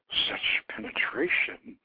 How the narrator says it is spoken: she murmured

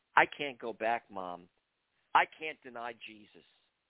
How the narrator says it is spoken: I gently informed her

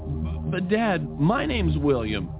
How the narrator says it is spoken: he stammered

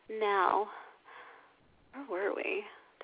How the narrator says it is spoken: Petra purrs distractedly

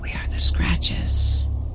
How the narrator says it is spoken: replied in a raspy whisper

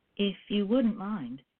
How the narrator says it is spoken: she replied

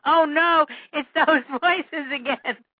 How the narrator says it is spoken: he assumed a fetal position and screamed

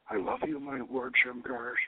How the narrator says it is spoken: whispers

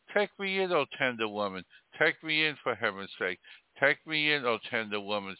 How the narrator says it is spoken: sighed the snake

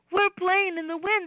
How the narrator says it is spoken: squealed

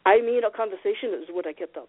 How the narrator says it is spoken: he clarified awkwardly

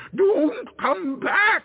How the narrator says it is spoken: it screamed

